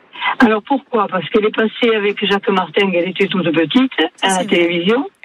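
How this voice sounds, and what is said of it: Local regional French accent. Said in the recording (French): “quel bel accent de chez nous”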